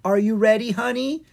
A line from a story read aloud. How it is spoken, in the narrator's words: Goldenrod asked excitedly